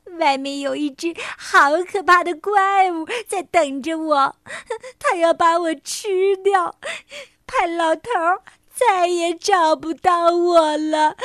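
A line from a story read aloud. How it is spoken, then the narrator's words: Sobbing. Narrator (Chinese): 狒狒抽泣着说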